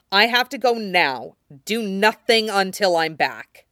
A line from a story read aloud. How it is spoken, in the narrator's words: he added to Stannis fiercely